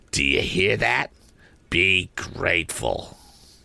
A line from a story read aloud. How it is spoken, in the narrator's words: my sister said in a low, reproachful voice